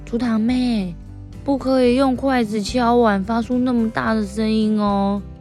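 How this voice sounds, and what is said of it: Soft, quiet speaking voice. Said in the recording (Chinese): “小声的跟堂妹说”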